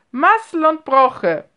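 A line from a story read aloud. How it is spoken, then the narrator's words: Loud laughing call. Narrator (German): rief Onkel Markus laut lachend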